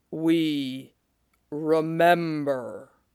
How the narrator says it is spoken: The giant stopped and bent towards him and said in a low voice, like the deep notes of a great horn

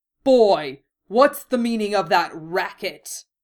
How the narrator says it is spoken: Vernon bellowed from the sitting room

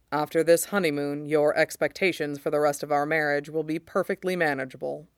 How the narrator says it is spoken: he says gravely

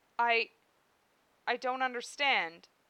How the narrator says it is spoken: he said, his voice shaking as badly as his hands

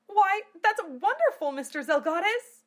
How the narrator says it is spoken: cried Amelia

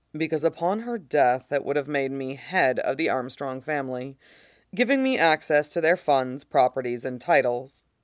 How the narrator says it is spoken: Mustang says calmly

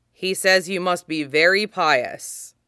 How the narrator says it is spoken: Dryly, Gonch translates

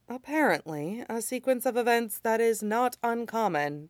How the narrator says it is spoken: Amaya said dryly

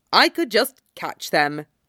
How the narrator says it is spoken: Momiji adds dryly

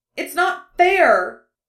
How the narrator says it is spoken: Kaleo's shout echoed through the desert city, bouncing back and forth from wall to wall and resonating through the glassy gate

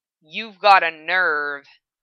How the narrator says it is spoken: a big voice grumbled

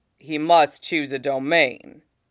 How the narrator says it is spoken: Zeus rumbles

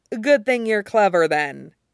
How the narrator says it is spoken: says dryly

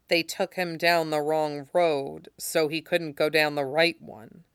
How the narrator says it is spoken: John repeated softly

